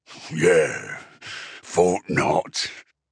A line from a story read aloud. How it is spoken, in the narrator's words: Uftak said with a deep chuckle